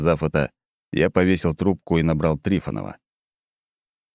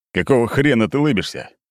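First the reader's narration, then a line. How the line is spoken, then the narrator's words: Bark. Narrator (Russian): рявкнул Быков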